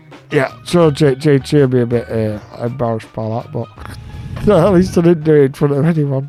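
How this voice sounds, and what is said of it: Usual voice. Nothing is said of it.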